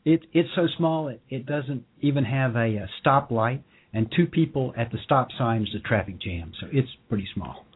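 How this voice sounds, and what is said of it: Vermont New England accent. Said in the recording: “That's where the accent comes from.”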